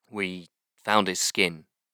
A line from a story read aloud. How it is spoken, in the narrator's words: Powick said slowly